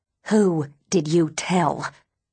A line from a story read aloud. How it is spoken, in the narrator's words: She snarls